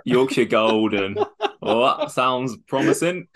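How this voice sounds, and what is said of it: Put-on Yorkshire accent. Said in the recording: “That's the best Yorkshire accent ever.”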